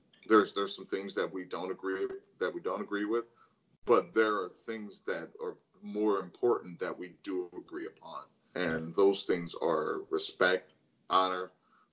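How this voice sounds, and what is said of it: Choked-up, emotional voice. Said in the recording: “I'm getting a little choked up here.”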